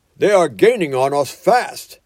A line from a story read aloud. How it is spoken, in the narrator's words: cried the engine driver